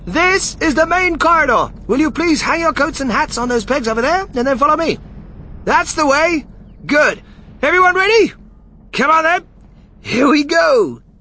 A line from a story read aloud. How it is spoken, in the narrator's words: Wonka, raising his voice above the noise